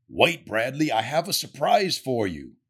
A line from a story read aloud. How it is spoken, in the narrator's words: says Santa